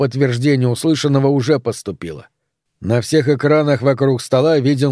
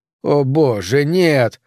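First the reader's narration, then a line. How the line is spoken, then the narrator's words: Groaning. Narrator (Russian): застонал Клавейн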